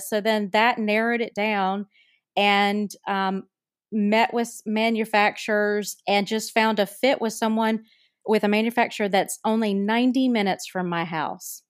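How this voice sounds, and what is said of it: North Carolina accent. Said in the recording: “listeners can tell from my accent... I'm from North Carolina.”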